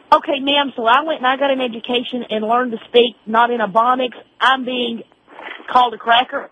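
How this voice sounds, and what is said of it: Southern drawl. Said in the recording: “I've got a Southern drawl.”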